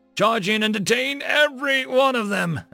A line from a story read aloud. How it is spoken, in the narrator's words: Estelle roared